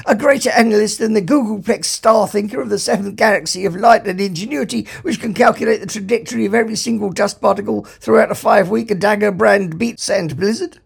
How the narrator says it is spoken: said Fook, leaning anxiously forward

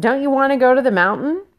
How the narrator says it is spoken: Ralph sighed, sensing the rising antagonism

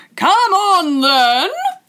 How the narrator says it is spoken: roared the Queen

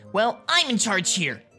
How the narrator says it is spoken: Mido snapped

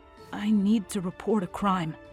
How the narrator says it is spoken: he said softly, and then louder

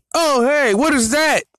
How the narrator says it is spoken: You yell

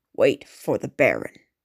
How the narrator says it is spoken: a guard officer snarled

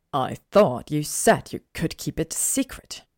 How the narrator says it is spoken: he said through gritted teeth

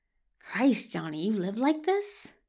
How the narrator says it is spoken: He mutters

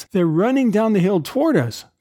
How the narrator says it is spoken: cried Ulrich

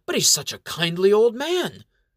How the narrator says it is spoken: Mayor Ulysses exclaims

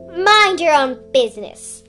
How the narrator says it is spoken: Admiral roared

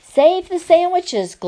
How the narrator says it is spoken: Gloria Dump yelled to me

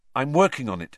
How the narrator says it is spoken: said Harry quickly

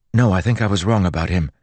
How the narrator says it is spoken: Joel said urgently

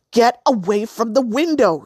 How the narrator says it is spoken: Severine screamed

